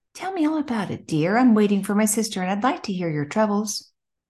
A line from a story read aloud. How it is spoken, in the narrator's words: the kindly woman said